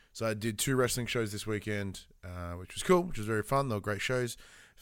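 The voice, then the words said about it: Tired, sluggish voice. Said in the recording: “you can tell in my tone ... my inability to like be functional. I am exhausted.”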